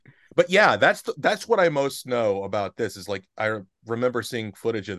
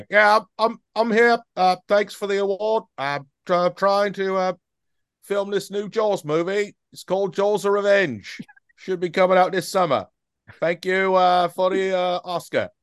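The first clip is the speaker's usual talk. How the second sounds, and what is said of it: Bad Michael Caine impression, Australian-sounding. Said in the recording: “worst Michael Caine impression ever. It started Australian.”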